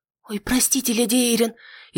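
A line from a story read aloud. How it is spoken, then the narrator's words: Frightened, muffled. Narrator (Russian): испуганно зажала рот ладошкой Нетты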